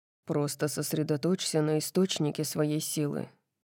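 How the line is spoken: Muttered. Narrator (Russian): пробормотал он

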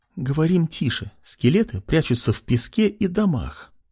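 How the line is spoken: Anxious whisper. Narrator (Russian): прошептала Лена, тревожно оглядываясь

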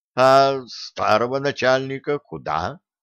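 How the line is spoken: Plain. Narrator (Russian): спросил Труссарди

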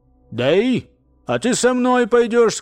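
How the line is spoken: Cheerful. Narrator (Russian): сказал он бодро

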